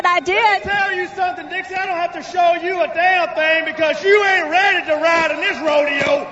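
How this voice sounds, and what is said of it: Strong Southern twang. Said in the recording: “A little twang? A little. you lie.”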